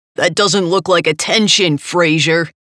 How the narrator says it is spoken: Sergeant Bell shouted

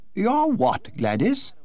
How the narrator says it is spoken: exclaimed the Duchess, giving an involuntary start

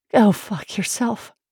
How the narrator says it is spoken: replied breathlessly

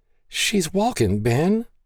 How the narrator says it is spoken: Maggie stammered

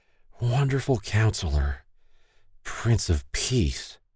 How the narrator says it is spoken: Stacy slowly slurred

